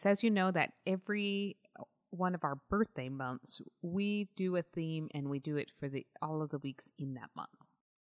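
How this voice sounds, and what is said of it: Own accent dropping L and K sounds. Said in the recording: “my accent has me like get rid of the L's and K's”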